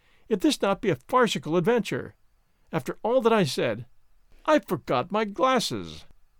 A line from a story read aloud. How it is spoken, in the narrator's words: he cries